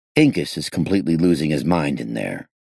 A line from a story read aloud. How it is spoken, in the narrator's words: I said grimly